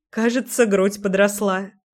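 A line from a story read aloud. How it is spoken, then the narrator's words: Chuckle. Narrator (Russian): хохотнула Леся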